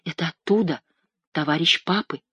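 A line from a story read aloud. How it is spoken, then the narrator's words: Whisper. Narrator (Russian): спросила она, шепотом сказала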